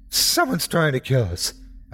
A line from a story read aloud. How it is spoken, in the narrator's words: I managed to blurt out